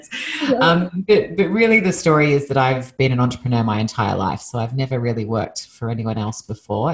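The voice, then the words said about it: Australian accent. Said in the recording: “you probably hear from my accent that I'm not from the States. Originally, I'm from Australia. So I was born and raised in Sydney, Australia”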